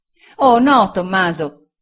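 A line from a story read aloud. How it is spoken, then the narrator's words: Exclaiming. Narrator (Italian): esclamò Sofia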